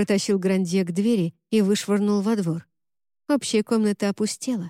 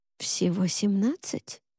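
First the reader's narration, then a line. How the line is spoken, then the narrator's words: Secretive whispered question. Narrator (Russian): спросила она шепотом, чтобы никто не услышал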